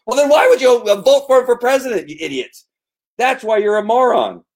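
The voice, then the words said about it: Yelling angrily. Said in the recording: “Sorry, I'm yelling.”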